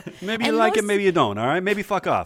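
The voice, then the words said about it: Italian-American gangster accent. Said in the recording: “Italian accent ... got the Irishman stuck in his head still ... talking like Pesci”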